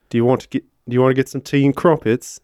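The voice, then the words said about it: Attempted British accent. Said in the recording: “Can you do a British accent?”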